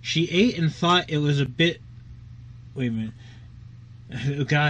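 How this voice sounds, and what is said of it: Usual voice. Nothing is said of it.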